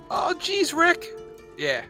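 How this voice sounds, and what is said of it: Good Morty cartoon voice impression. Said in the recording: “That was actually a pretty good Morty impression ... that one was actually really pretty on point.”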